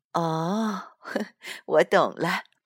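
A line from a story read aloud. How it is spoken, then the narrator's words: Mother laughing. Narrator (Chinese): 妈妈笑了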